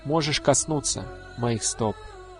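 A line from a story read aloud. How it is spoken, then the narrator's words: Soft, smiling. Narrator (Russian): Лучась улыбкой, он мягко сказал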